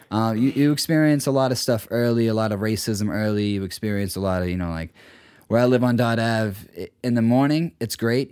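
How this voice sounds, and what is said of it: Dorchester Boston accent. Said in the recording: “they don't immediately assume I'm from Dorchester unless you've, you know, you're familiar with, then you're like, you can tell instantly with my accent.”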